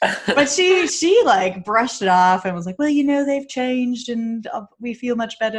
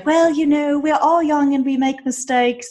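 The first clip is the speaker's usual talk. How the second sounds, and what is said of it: Put-on British accent. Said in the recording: “that's my British accent.”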